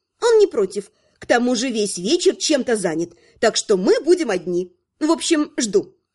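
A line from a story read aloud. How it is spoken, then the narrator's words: Repeated. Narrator (Russian): повторила ведьмачка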